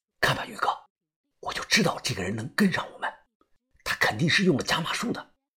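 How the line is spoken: Whispered through gritted teeth. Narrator (Chinese): 我咬着牙小声的说道

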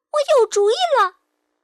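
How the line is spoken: Sudden loud shout. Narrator (Chinese): 他忽然大声喊

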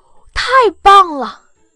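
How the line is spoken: Excited loud shout. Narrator (Chinese): 我忍不住兴奋地大声喊了一句

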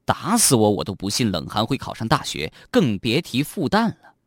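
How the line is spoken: Silent inner muttering. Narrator (Chinese): 嘴上不说，心里却嘀咕着

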